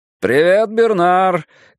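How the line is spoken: Driver shouting through partition. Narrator (Russian): крикнул из-за разделявшей салон и кабину плексигласовой перегородки водитель

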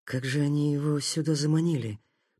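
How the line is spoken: Muttered. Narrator (Russian): пробормотал Такеда

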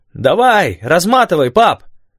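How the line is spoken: Shouted while moving. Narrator (Russian): крикнул Манда на ходу

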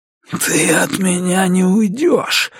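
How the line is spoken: Breathed out. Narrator (Russian): выдохнул он

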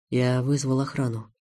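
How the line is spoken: Quiet. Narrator (Russian): негромко сказал Хайретдинов

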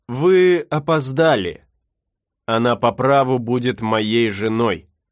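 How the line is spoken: Calm. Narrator (Russian): он спокойно сказал

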